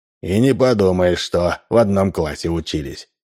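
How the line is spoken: Sighing. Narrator (Russian): вздохнул Удалов

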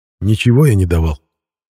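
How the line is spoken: Grumbling mutter. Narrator (Russian): пробурчал Эдик

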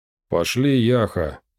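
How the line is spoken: Displeased mutter. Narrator (Russian): недовольно пробурчал Шурум

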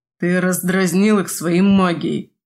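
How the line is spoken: Strained grumble. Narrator (Russian): Буркнул Тайчо, из последних сил

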